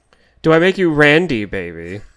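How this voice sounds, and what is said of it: Austin Powers character impression. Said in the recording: “your best Austin Powers impression”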